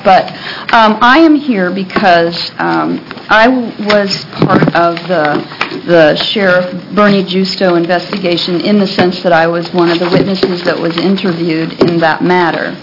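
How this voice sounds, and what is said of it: Slightly hoarse voice. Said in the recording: “I'm a little bit under the weather today, so I sound a little hoarse.”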